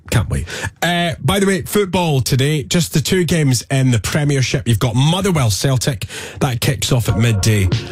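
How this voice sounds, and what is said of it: Hoarse voice. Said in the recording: “my voice was. Well, you can still hear it. ... It's a bit hoarse.”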